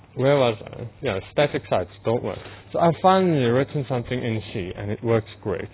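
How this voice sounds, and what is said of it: Mixed South African Afrikaans-tinged English accent. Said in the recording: “it is very much a South African English ... my accent I know is quite mixed, although still recognizably Afrikaans”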